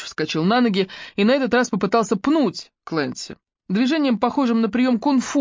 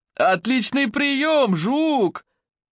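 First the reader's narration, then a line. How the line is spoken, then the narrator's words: Shouting. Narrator (Russian): крикнул один из них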